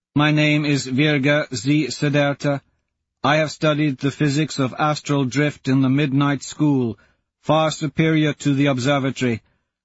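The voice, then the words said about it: Woman's voice, slow accent. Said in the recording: “shouts a woman in that slow accent.”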